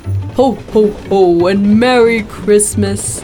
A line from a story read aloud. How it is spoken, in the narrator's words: Santa bellowed